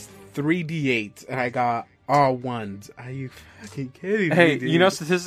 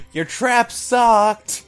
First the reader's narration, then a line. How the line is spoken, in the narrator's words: Anya's just gonna kind of yell out